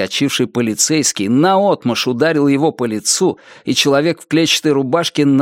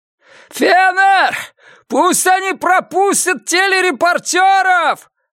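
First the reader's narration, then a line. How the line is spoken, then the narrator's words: Yelling. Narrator (Russian): завопил он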